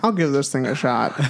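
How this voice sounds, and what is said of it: Jimmy Stewart-style voice impression. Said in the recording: “your impression of him again ... Like Jimmy Stewart just now ... that was great. That was great.”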